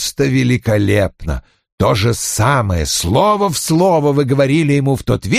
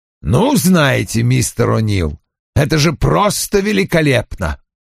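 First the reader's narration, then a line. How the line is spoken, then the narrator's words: Chuckling. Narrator (Russian): хмыкнул Вульф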